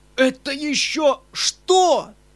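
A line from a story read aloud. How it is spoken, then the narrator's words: Crying out. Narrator (Russian): Вскрикнул он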